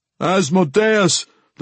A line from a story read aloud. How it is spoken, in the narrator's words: the commander yelled back